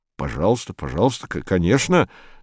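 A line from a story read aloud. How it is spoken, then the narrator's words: Mumbled. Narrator (Russian): забормотал Седловой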